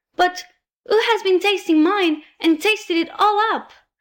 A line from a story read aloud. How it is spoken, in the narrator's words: cried the poor little teeny-tiny bear in a teeny-tiny voice, with the tears running down his teeny-tiny face